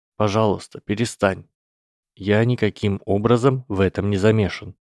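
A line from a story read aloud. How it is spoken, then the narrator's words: Completely calm voice. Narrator (Russian): совершенно спокойным голосом повторил Гарри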